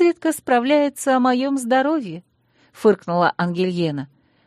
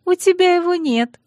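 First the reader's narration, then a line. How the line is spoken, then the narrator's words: Pleased giggle. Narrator (Russian): довольно хихикнула подруга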